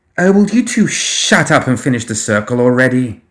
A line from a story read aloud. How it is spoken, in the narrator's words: Estella snapped